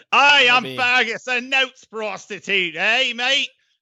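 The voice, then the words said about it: Poor put-on New Zealand accent. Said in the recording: “That wasn't a good New Zealand. ... I can't do a New Zealand accent. ... It's terrible. It's so bad.”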